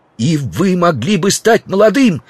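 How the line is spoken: Shouting. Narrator (Russian): кричал Стендаль

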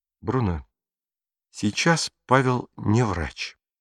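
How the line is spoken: Quiet speech. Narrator (Russian): тихо проговорила Мария

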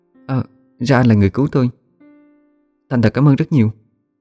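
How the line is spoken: Quiet voice. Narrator (Vietnamese): Cô gái nhỏ giọng nói

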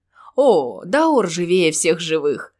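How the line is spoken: Laughing. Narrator (Russian): засмеялся Келфер

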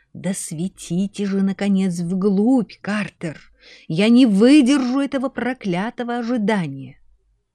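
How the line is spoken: Impatient hiss. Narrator (Russian): Кто-то прошипел

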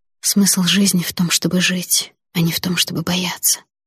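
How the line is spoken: Whisper. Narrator (Russian): прошептала я брату

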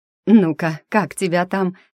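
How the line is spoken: Husky, sensual voice. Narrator (Russian): с хрипловатой чувственностью произнесла Зиночка

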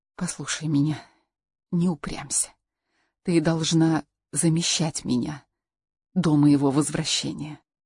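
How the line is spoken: Whispered. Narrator (Russian): тот прошептал

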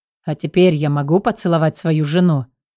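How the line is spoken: Mock grumbling. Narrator (Russian): проворчал для вида

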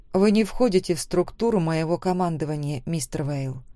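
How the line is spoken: Quiet reply. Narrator (Russian): также тихо ответила я

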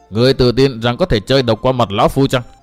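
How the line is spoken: Furious, murderous voice. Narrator (Vietnamese): Bắc Độc tức giận đến nỗi cả mình muốn phát run, nói bằng một giọng đầy sát khí

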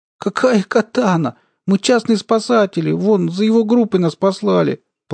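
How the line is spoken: Tearful explanation. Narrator (Russian): плачущим голосом начала объяснять Алиса

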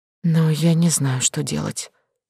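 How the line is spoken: Young lady speaking quietly. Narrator (Russian): тихо произнесла барышня

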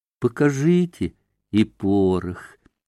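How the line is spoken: Pleading drawl. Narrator (Russian): протянула она с просящей улыбкой

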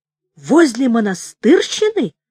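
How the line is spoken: Exclamation. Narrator (Russian): воскликнул Корниенко

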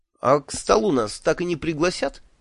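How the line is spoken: Snide question. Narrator (Russian): ехидно спросил я Шурфа

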